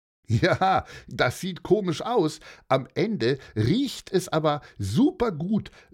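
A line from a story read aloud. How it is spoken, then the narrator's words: Laughing. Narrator (German): lachte Uwe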